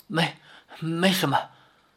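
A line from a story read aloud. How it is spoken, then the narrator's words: Gasping, wounded. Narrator (Chinese): 盖罗娇又喷出一口血，喘着气说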